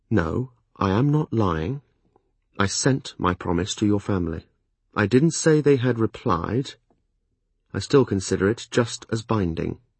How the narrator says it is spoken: When I could speak calmly, I replied, keeping my voice pitched low

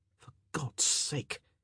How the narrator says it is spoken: Colin muttered

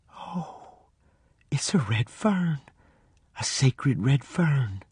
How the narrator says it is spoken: I heard her say, almost in a whisper

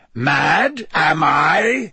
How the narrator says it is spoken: said Moody, his voice rising uncontrollably

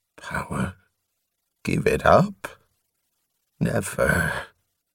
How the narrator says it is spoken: Drool only muttered

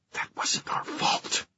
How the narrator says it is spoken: Livy whispered

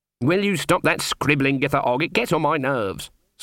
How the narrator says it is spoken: snapped Granny

